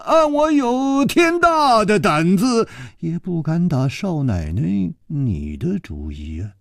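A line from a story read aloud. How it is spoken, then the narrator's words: Sighing. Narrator (Chinese): 楚留香叹了一口气说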